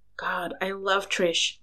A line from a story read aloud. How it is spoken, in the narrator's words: Louis said with a sigh